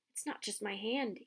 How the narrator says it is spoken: he whispered

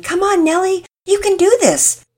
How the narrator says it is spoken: shouts of encouragement

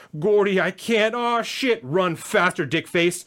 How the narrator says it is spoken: I bellowed, and I enjoying this

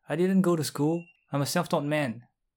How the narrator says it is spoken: the chiropractor shout

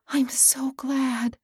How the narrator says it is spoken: said Lily, with a little sigh of relief

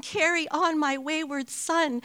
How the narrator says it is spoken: at the top of his lungs from behind a closed bathroom door

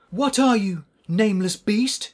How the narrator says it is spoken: cried

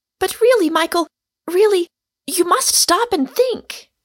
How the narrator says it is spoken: cried the girl earnestly

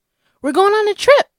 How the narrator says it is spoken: she exclaimed, still beaming at the passports

